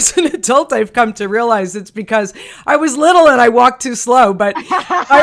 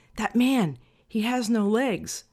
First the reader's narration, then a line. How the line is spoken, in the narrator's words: whispered in his ear